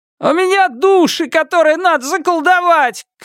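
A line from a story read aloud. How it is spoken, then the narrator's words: Shouting. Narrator (Russian): крикнул третий человек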